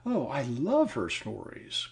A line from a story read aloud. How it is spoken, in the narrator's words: cried the girl, clasping her hands ecstatically